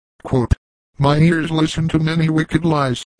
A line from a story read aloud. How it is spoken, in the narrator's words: exclaimed the Teton warrior, in a voice so stern that it startled even his red auditors